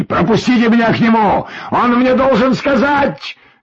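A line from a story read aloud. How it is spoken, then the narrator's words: Frenzied shout. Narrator (Russian): Закричал, горя полуумными глазами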